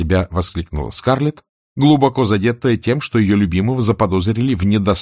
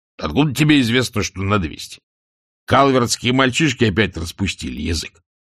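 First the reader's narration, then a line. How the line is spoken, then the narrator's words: Angry muttering. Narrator (Russian): сердито пробормотал Джеральд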